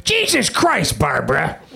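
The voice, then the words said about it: Imitates another person's voice. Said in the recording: “This is my impression of Nick Nolte”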